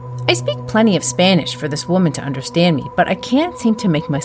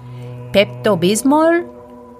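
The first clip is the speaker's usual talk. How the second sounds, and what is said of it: Spanish accent. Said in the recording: “I try it in a Spanish accent.”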